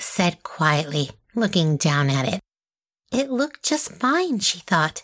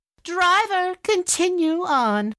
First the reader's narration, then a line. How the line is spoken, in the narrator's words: her stepmother called out